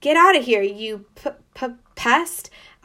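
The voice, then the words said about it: Fierce barking voice. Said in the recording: “I bark in my fiercest voice.”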